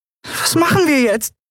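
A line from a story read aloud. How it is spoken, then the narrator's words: Squeaky. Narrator (German): piepste sie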